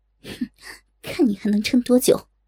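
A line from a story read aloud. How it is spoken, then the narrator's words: Cold inward sneer. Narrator (Chinese): 兰花仙子心下冷笑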